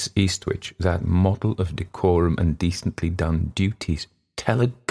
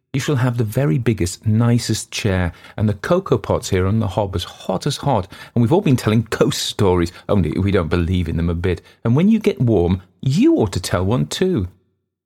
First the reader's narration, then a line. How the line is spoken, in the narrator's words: the youngest went on eagerly